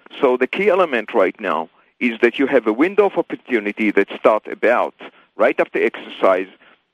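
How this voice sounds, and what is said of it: Speaks with a noticeable accent. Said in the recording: “Sorry for my accent. Oh, my God. Some words are not even coming out right.”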